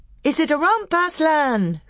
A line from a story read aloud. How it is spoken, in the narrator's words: cried the youth